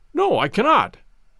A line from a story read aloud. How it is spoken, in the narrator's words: I answered sharply